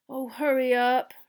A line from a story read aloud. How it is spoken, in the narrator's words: Ron moaned